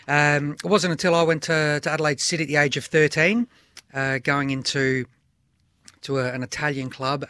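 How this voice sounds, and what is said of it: Australian man, somewhat English-sounding accent. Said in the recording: “it sounds like I've got an English accent”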